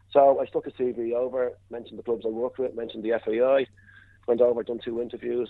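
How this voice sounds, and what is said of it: Irish Dublin accent. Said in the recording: “your accent and the mention of the FAI that you are from Ireland originally, from Dublin”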